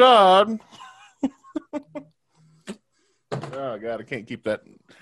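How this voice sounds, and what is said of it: Usual voice. Nothing is said of it.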